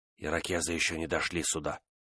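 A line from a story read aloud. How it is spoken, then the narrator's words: Whisper. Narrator (Russian): прошептал он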